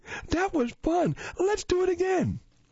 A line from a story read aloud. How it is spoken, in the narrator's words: he shouted happily